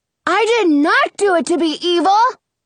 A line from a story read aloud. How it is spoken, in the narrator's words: he yells